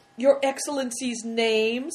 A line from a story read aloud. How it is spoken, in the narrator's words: asked, could hardly speak for laughing